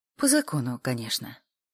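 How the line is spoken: Calm. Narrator (Russian): спокойно отозвалась Арина

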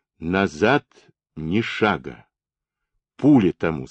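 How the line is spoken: Plain. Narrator (Russian): сказал он Абашкину

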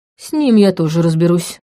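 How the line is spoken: Man, through clenched teeth. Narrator (Russian): процедил мужчина

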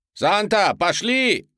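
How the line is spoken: Shouting. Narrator (Russian): закричал я

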